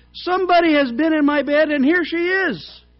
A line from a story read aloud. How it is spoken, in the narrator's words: he cried